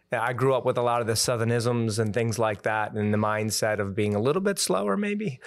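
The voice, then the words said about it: Slight Southern twang. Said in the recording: “I can hear a little bit twang”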